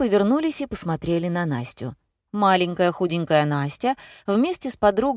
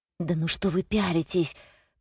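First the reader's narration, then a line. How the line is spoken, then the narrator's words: Hiss. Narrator (Russian): прошипела Лена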